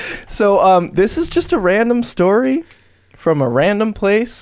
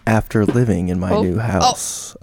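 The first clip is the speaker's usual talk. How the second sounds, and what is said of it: Spooky storytelling voice. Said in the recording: “spooky voice”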